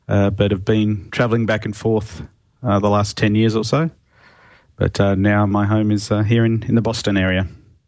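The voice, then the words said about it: Australian accent. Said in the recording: “that's not a Boston accent, is it? ... It's not by any means. Originally from Australia”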